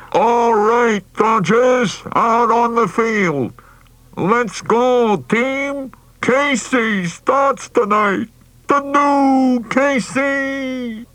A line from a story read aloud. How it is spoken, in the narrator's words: cupping his hands like a megaphone, and shouted